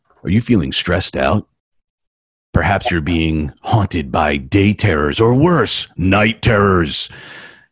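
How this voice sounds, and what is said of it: Deep voice, mock ad read. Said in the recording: “that deep voice”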